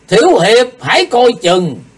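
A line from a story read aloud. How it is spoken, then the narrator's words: Loud warning shout. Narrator (Vietnamese): diệu thủ thiên sư thét to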